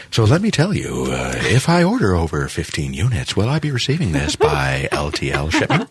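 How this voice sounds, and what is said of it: Exaggerated radio announcer voice. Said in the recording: “occasionally you go into a little bit of a radio voice”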